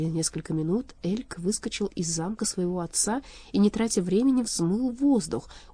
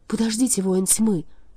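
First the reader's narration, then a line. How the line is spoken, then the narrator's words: Agitated, excited voice. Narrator (Russian): взволнованно произнесла она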